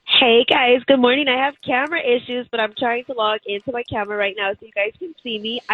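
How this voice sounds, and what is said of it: Unwell, struggling voice. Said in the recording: “under-the-weather ... my voice is just not working with me today ... It don't sound that bad”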